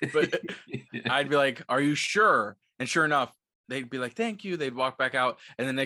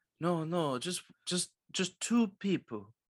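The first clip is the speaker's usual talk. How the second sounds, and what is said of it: Poorly done put-on accent. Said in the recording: “That's a terrible accent.”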